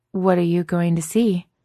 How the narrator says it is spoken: Becca struggles to keep her voice neutral and calm, like a normal person

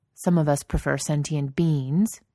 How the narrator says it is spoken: Jensen says sharply

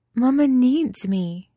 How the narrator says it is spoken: she said desperately, over and over

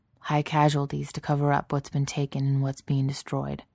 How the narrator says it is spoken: he said in a careful monotone that was scratchy with disuse

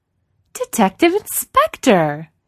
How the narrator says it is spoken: she says brightly

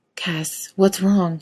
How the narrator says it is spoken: He hissed slowly

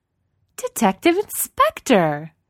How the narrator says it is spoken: she says brightly

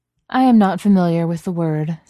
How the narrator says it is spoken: Sif says blandly

